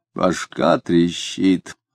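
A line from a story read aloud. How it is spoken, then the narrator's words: Hoarse, rough growl. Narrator (Russian): хрипло сказал он, и хозяйски грубовато зарычал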